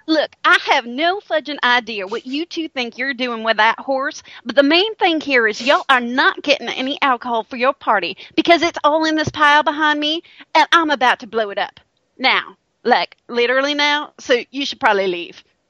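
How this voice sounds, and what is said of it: Put-on Southern US accent. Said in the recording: “the southern accent is appropriate because there is a y'all in there”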